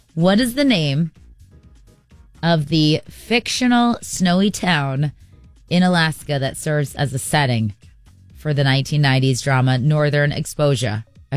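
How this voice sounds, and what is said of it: Rhode Island accent slipping through. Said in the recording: “My Rhode Island accent just slipped there a little bit.”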